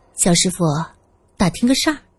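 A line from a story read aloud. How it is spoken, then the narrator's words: Quiet question. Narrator (Chinese): 苏三小声问道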